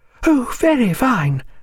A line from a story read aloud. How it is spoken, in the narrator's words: cried the ladies